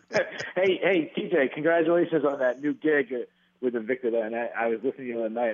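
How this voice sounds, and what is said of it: Distinctive accent, sounds like Phil Baroni. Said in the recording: “accent ... You can tell me it's it's Phil Baroni and I won't be able to tell you any different.”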